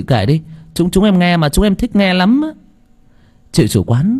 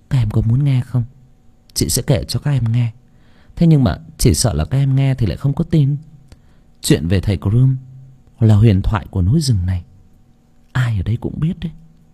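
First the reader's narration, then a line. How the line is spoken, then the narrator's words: Soft sigh. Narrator (Vietnamese): Chị chủ quán khẽ thở dài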